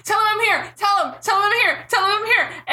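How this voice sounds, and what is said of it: Yelling. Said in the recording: “he's yelling”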